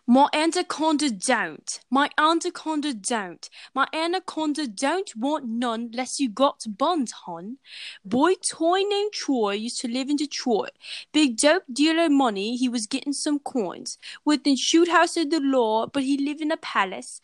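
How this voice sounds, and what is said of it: Sung in put-on British accent. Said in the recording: “I'm going to sing this certain song in a British accent”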